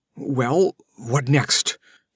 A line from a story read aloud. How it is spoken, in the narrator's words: she asked in a shaky voice